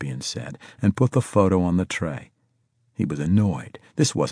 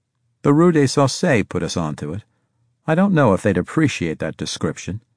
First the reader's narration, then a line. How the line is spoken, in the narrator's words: Harris said dryly